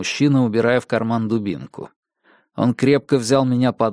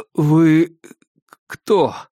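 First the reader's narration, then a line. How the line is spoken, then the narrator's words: Strained, forced out. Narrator (Russian): с трудом выдавил я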